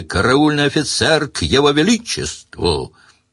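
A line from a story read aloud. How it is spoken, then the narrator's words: Louder barking shout. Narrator (Russian): Сварог рявкнул еще громче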